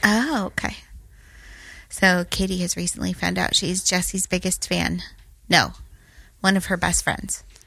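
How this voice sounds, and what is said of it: Sick, husky-sounding voice. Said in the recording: “As you all can hear from my voice, I am recovering from my cold, not a 1-900 operator.”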